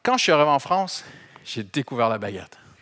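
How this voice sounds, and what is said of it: Foreign accent speaking French. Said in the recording (French): “avec mon accent, je, suis un touriste éternel.”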